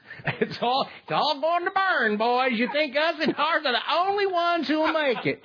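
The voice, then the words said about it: Weak attempt at a southern accent. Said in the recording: “that's best said in a southern accent, so I guess I'll redo that ... I'm not sure it was better ... I went all woman on it”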